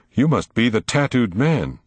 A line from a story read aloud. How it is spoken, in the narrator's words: cried Will